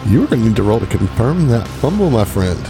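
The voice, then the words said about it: Over-the-top game show host voice. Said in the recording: “this game show voice thing. Like, it's awful. It's just terrible.”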